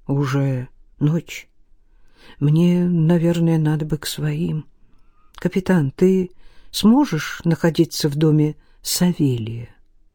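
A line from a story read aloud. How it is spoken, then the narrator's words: Uncertain speech. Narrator (Russian): Илья неуверенно произнес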